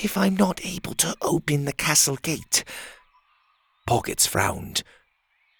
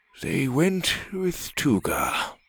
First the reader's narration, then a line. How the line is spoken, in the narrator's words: Brack sighed